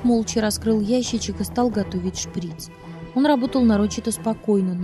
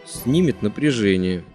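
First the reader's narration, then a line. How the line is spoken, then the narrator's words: Through gritted teeth. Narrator (Russian): сквозь зубы бросил врач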